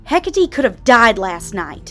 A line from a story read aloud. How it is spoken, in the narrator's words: Aradia shouted